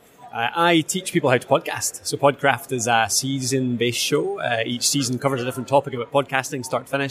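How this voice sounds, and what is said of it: Scottish accent. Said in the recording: “is obviously Scottish. I'm sure the ladies are going to love that accent.”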